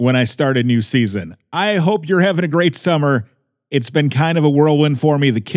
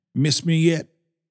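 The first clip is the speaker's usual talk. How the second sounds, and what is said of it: George W. Bush impression. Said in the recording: “my George W. Bush impersonation”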